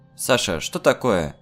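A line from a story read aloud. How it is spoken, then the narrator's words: Mother's shout. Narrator (Russian): крикнула выглянувшая из окна мама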